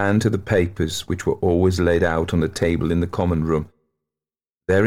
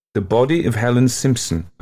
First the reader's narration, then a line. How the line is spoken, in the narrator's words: I read, unable to repress my shivering